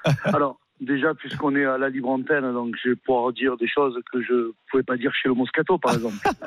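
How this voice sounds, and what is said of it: Belgian-sounding French accent. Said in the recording (French): “ce petit accent. ... Belgique”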